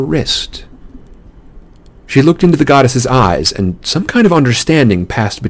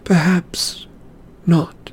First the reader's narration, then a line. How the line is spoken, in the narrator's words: Zoe murmured